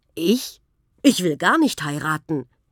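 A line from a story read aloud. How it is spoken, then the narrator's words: Called out. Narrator (German): rief Prinz Karl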